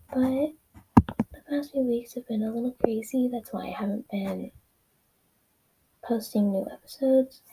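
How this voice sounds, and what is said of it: Rough, unwarmed morning voice. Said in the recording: “first time I'm talking all morning, so my voice isn't the greatest right now”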